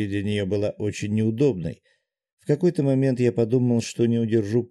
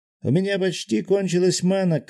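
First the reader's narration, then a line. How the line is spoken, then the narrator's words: Shouted. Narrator (Russian): крикнул Гензо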